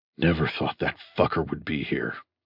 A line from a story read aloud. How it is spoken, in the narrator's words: said Bunny quietly